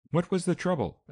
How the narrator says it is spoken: asked the old man in a worried voice

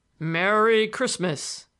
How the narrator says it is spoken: In his big, hearty tones

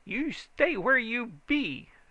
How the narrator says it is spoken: his voice came back sharp as a razor

